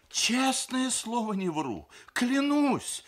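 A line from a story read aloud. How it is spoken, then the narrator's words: Babbling. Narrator (Russian): залепетал Сергей Николаевич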